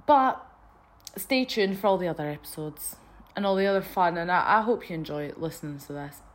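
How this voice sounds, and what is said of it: Scottish accent. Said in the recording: “my voice is so annoying. I know it's annoying. I know it's like a strange Scottish accent.”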